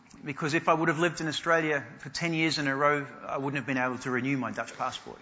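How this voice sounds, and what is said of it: Australian English accent. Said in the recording (Dutch): “my accent is Australian”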